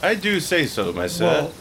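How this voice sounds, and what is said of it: Put-on English accent. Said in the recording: “Yetis speak with an English accent.”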